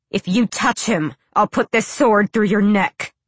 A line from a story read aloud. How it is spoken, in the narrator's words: Selena snarled